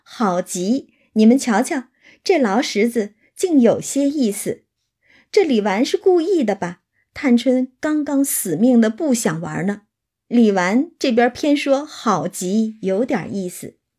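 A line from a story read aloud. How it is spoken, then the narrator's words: Laughing. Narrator (Chinese): 一看笑道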